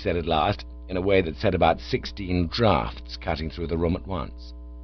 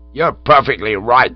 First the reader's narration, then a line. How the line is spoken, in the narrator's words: snorted